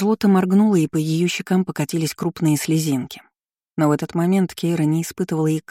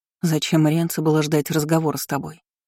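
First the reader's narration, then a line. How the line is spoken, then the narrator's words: Plain. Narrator (Russian): сказала она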